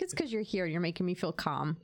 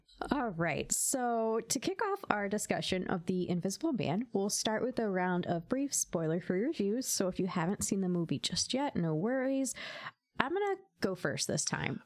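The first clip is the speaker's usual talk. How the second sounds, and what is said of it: Smooth, calm radio-announcer voice. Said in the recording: “you're doing your NPR voice. ... this is just smooth sailing. That was, like, so smooth. ... It was very smooth. Can you, like, read me a bedtime story”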